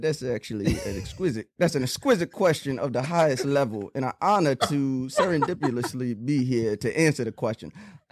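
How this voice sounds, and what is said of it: A decent voice impression. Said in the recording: “I probably have the best impression in the land. ... That's not bad for a New York cat's impression of.”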